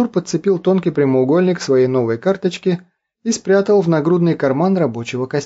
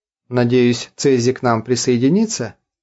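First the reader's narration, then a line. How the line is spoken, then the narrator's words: Plain. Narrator (Russian): спросил Артур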